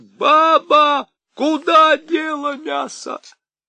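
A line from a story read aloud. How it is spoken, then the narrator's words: Shouted at full voice. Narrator (Russian): он крикнул изо всей мочи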